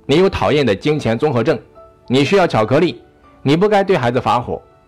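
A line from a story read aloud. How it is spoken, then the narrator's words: Loud, to oneself. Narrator (Chinese): 对自己大声地说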